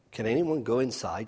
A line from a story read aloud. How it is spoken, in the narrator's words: she asked